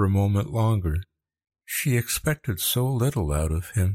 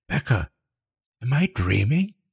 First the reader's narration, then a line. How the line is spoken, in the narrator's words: She gasped